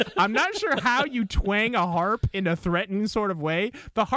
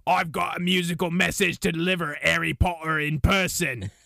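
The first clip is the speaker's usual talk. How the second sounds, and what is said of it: Dwarf character voice. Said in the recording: “I'm going to read this in my best dwarf voice”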